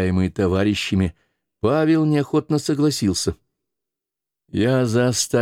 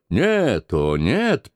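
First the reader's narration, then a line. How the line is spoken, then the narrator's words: Old soldier grumbling. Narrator (Russian): проворчал старый центурион Гал по имени Брен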